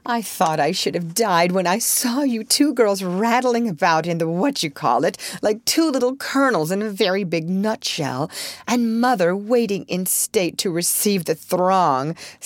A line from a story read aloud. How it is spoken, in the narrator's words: sighed Jo, quite spent with laughter